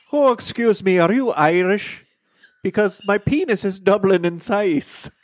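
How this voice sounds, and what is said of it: Put-on Irish accent. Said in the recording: “I should have done the opening with an Irish accent. ... That was much better.”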